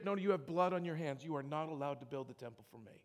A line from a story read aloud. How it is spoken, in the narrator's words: God very quickly says, through the prophet David